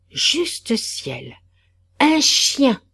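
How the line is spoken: Yelp. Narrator (French): glapit Marianne

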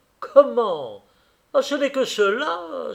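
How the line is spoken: Exclaiming with nasty smile. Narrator (French): s'écria Vachlaninoff avec un sourire mauvais

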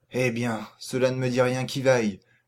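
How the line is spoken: Murmured. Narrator (French): murmura-t-il

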